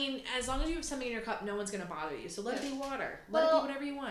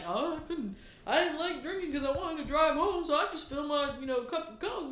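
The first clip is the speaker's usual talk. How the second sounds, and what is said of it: Imitates another person's voice, poor accent. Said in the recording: “my accent for him is so sad”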